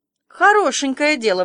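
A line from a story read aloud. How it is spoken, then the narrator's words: Exclaimed. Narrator (Russian): воскликнула Марилла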